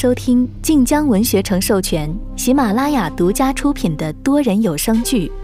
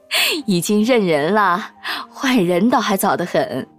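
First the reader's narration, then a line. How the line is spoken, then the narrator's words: Laughing. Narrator (Chinese): 白氏……忍不住笑说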